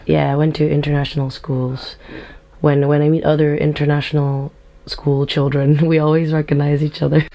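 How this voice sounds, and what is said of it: International, non-Scottish accent. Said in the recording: “you don't sound like you're from Edinburgh ... you've got that kind of international accent”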